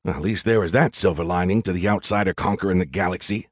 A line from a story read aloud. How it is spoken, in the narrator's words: I muttered